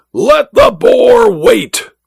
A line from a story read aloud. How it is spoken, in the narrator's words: the Duke roared